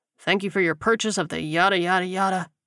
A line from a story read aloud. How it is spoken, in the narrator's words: muttered